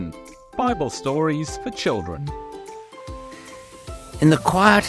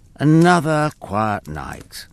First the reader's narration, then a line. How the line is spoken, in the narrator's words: sighed Jabel